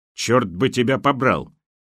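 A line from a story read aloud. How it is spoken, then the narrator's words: Sudden angry bark. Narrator (Russian): ни с того ни с сего рявкнул на свою ассистентку Гавриченков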